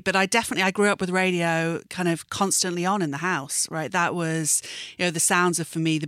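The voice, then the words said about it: British accent. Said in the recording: “you can tell from the accent, obviously... being from the UK”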